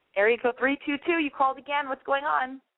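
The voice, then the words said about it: Losing voice, raspy party-girl voice. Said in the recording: “I feel like I'm losing my voice, and I'm like some girl who is a bartender in New York, or I'm like that crazy New York girl, party girl, who, you know, has been going out too many nights in a row ... my voice is getting there”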